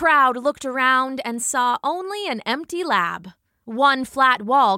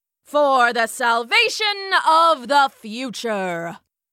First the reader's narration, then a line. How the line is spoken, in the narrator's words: boomed a voice from hidden speakers